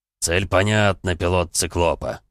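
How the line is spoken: Booming drone. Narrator (Russian): прогудел Эмик

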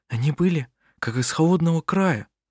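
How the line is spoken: Whisper. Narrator (Russian): прошептала Лина

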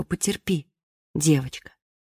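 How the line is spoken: Gentle motherly voice. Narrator (Russian): мама скажет ласково

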